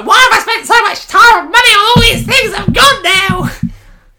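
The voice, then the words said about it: Shrewish imitation of co-host. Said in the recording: “I don't think that was a fair impression. You sound very shrewish. Very shrewish.”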